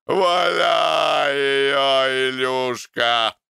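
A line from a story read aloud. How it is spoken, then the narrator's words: Drunken shout, laughing loudly. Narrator (Russian): Пьяный рачитель громко хохотал и кричал сыну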